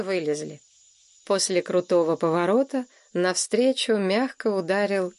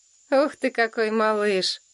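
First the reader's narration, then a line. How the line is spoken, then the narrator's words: Tender, affectionate. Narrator (Russian): ласково сказал Ник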